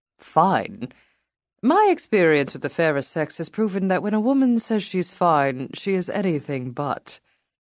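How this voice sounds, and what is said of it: Male voice, charming British accent. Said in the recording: “A male voice with a charming British accent”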